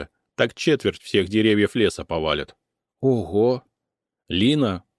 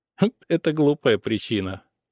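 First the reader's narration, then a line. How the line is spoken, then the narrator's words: Giggling. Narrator (Russian): хихикнула Аура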